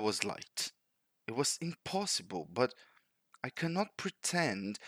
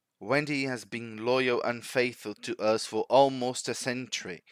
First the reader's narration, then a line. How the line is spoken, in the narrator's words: said Father Old